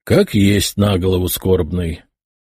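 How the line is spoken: Sighing. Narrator (Russian): вздохнул майор

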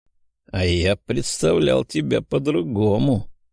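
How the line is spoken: Hissed. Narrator (Russian): прошипел Михась

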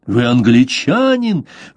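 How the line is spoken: Horrified exclamation. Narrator (Russian): в ужасе воскликнул испанец

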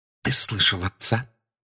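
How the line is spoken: Whispered. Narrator (Russian): прошептала миссис Уизли

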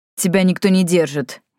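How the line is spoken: Slightly angry reply. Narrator (Russian): Немного сердито ответил Йен

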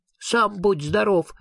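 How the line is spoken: Angry ghost. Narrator (Russian): сердито ответило привидение

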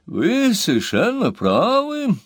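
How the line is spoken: Loud, feigned calm. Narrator (Russian): громко сказал королевский юрисконсульт Басфас с притворным спокойствием

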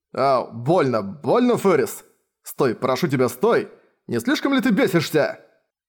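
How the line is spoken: Yelling in pain. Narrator (Russian): Орал он

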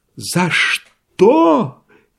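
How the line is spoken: Threatening shout. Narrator (Russian): крикнул Иван Дмитрич, с угрожающим видом

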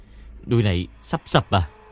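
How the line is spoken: Terrified cry. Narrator (Vietnamese): Ôn kinh hãi kêu lên

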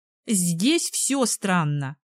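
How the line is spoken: Muttered. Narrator (Russian): буркнула Бренда полицейский

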